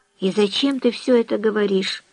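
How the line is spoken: Whisper. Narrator (Russian): прошептал Элис

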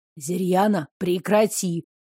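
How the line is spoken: Quiet. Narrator (Russian): тихо сказал Несибр

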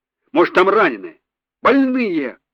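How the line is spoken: Shout. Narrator (Russian): выкрикнул он

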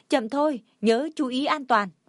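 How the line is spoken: Loud calling out. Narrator (Vietnamese): Diệu Tố hét to

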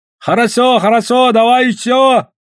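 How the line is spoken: Shouting from the darkness. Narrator (Russian): орали они из темноты

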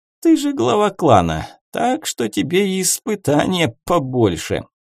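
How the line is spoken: Snide young man. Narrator (Russian): один из парней ехидно произнес

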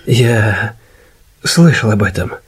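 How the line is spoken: Soft. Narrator (Russian): мягко сказал Иден

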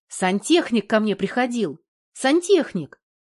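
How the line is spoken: Joyful blurting. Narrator (Russian): радостно выпалила Наталья

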